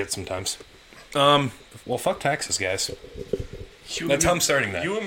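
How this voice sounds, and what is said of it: Usual voice. Nothing is said of it.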